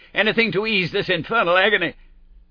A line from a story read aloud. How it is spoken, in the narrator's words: The inspector and I cried out at the sight